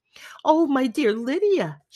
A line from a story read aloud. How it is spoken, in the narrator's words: she cried